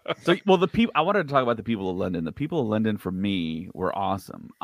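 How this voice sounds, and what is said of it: American accent. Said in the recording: “being an American with my accent ... my accent would get like, oh, you're an American”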